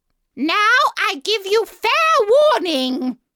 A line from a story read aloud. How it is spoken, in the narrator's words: shouted the Queen